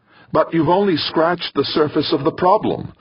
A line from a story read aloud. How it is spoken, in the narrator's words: Molina cried, feeling more and more desperate